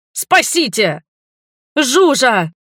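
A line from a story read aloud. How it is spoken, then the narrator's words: Screaming. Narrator (Russian): заорала я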